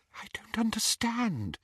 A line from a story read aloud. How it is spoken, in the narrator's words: she whispered